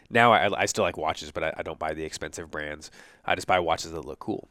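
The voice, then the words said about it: Slightly hoarse, congested voice. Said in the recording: “my voice is starting to change ... my voice is starting to go a little bit, and I'm starting to feel stuffed up”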